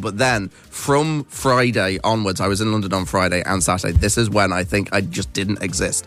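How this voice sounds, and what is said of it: Neutral English accent. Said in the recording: “because I'm English... a lot of people think that I'm from London just with my accent... My accent is kind of just neutral English... I'm from a place called Nottingham, which is in the middle of England”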